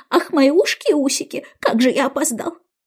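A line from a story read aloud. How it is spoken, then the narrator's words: Exclaimed. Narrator (Russian): он, повернув за угол, воскликнул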